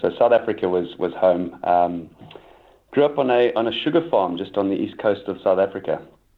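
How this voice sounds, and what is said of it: South African accent. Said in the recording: “life started out back in South Africa, and I think the accent gives that away”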